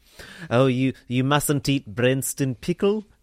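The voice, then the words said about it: Put-on South African accent. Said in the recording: “That's my South African accent.”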